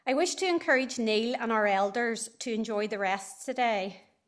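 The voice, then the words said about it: Nervous, shaky voice. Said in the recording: “It really is quite nerve-wracking standing up here ... it is quite nerve-wracking up here. You can maybe hear that in my voice.”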